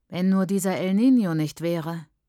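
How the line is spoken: Man sighing. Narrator (German): der Mann seufzt

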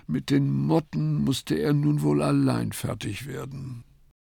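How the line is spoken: Sighing. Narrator (German): seufzend

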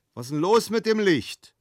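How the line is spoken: Called out. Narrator (German): rief

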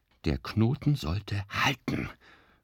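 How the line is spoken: Panting. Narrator (German): keuchte Florian schließlich

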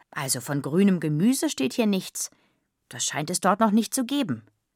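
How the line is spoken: Calling out. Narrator (German): rief

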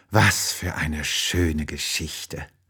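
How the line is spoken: Sleepy murmur. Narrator (German): murmelt sie und fällt schon in tiefen Schlaf

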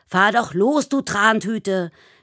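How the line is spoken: Driver shouting. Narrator (German): schreit ein Autofahrer

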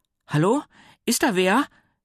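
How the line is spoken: Calling out. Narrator (German): rief sie

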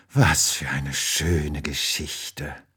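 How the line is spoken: Sleepy murmur. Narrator (German): murmelt sie und fällt schon in tiefen Schlaf

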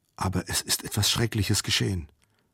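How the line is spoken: Woman whispering. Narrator (German): flüsterte sie

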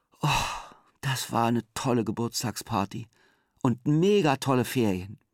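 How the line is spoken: Tired, content. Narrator (German): sagt müde und zufrieden

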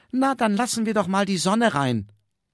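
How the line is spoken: Called out. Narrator (German): rief

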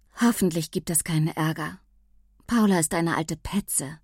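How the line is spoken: Sighing. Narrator (German): seufzte Mia

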